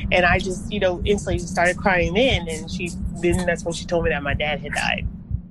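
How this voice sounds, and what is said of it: Emotional, choked-up voice. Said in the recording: “I'm getting a little emotional now talking about it.”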